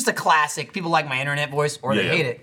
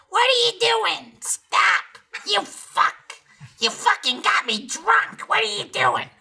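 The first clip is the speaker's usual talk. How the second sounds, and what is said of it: Imitates another person's voice. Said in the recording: “our Denise voice is like ... That's my Denise voice.”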